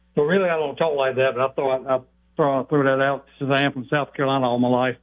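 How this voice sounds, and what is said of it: Thick South Carolina accent. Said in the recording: “You do know you have a thick accent, right? ... how thick is his accent?”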